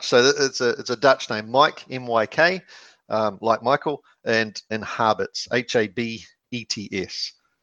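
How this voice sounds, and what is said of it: New Zealand accent. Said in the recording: “all said with a Kiwi accent, of course”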